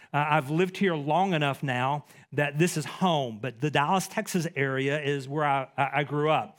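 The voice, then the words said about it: East Texas accent. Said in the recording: “my accent maybe gives it away, I'm from East Texas”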